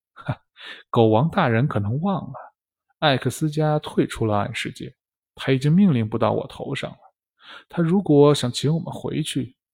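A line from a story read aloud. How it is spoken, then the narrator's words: Faint smile, calm. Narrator (Chinese): 梅姐淡淡一笑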